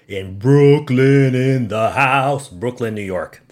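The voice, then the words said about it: Put-on nonsense accent. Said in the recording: “I don't know where that accent came from. It was just nonsense.”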